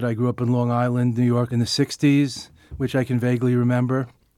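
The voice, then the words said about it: American accent. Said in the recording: “As you can tell from the accent, he's a member of what you could call the next generation of Buddhist teachers, ... who grew up as middle-class Americans”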